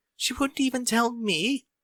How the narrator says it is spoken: Rarity gasped in mock surprise

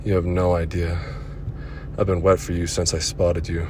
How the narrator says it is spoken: With a delicious moan, she said

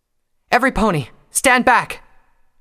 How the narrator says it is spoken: cried out

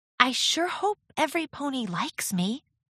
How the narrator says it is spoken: She lowered her voice and whispered to Rarity

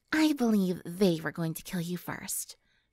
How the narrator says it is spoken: she said in a sultry whisper

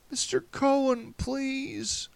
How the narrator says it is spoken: a new voice, pleading

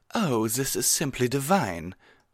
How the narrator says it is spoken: Rarity exclaimed

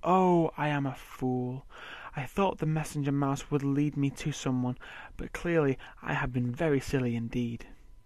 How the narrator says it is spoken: sighs

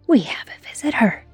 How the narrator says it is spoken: hissed one of the devils

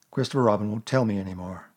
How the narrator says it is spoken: he said sadly to himself

